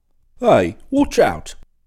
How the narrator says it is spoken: a voice cried out to her

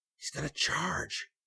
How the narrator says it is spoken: he whispered

